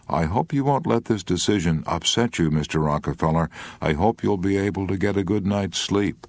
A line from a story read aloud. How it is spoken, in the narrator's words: as gently as he could and then said, with concern